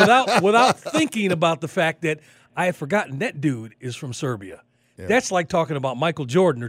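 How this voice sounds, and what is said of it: Usual voice. Nothing is said of it.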